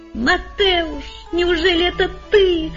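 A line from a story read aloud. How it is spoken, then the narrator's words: Overjoyed exclamation. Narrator (Russian): воскликнул я вне себя от радости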